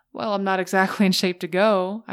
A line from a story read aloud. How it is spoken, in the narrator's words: laughed to myself